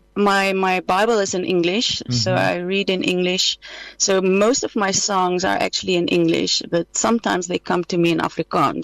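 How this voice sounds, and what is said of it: Slight Dutch accent. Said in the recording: “We can hear a bit of a Dutch accent there in the background.”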